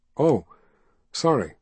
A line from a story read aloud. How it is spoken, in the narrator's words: he said